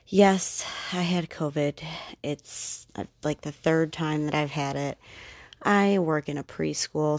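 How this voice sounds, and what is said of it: Voice still recovering from illness. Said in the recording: “my voice is recovering. I am recovering from COVID.”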